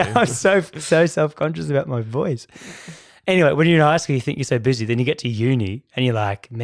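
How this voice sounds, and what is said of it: Usual voice. Nothing is said of it.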